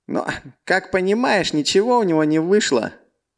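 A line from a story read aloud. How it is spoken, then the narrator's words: Loud laughter. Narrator (Russian): Громко расхохотавшись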